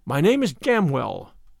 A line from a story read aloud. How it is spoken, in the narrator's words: answered the other